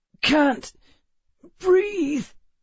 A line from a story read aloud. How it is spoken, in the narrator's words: Emma groaned